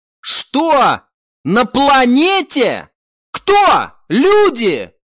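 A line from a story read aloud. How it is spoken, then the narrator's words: Shouting. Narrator (Russian): прокричал друид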